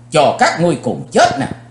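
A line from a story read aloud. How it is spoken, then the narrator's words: Angry loud shout. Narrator (Vietnamese): Chí Tôn tức giận, chàng hét lớn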